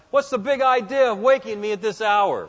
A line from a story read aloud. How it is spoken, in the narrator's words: he would probably shout something like